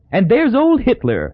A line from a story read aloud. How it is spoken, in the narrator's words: chuckled Hazel, delighted